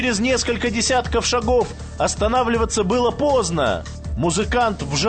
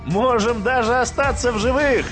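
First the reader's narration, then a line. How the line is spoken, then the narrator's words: Laughing. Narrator (Russian): засмеялся музыкант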